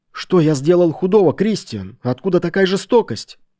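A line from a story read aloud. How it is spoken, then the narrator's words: Pleading. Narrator (Russian): взмолился Хайвард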